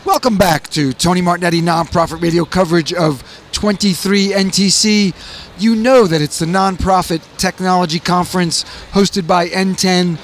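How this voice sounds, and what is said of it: Slightly hoarse voice. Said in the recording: “my voice is a little hoarse because I did spend so much time capturing interviews”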